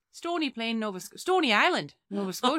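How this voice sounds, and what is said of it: Put-on regional accent, done well. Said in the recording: “Oh my God, that was good. ... That's the only accent I can do.”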